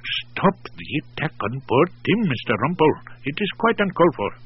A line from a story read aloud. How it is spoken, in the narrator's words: Ramat, of course, whispered